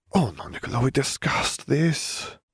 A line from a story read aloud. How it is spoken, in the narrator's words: Perrineau sighed